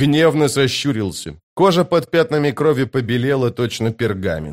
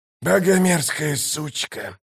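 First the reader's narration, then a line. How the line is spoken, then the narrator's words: Hoarse rasp. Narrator (Russian): прохрипел Каллор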